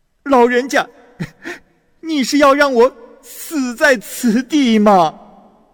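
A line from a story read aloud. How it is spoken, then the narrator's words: Wailing, sobbing. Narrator (Chinese): 陆生向着终南山大哭着说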